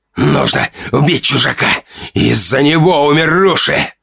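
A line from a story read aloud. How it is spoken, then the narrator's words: Hoarse wheezing. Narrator (Russian): хрипел Ранд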